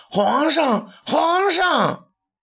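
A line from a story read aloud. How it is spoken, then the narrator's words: Shouting while running. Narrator (Chinese): 徐甲边跑边叫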